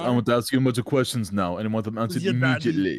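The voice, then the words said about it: Imitates another person's voice. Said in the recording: “until I perfect my Schwarzenegger impression”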